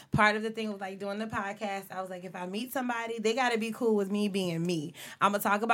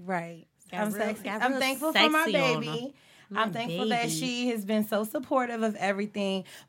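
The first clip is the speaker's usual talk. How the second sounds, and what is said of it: Sexy, sultry voice. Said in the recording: “Sexy voice.”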